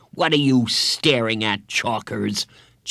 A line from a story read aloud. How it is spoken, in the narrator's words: Jeff snarled